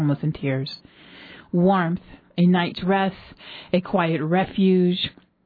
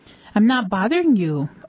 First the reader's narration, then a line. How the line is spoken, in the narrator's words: Olga said happily